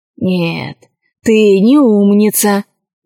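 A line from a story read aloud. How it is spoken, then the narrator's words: Sighing rat. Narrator (Russian): вздохнул крыс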